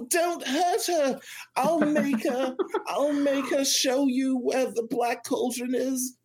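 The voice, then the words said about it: Weird character voice for Taran. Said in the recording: “It's like magic... How are you doing that?... I've been doing weird voice stuff for a long time”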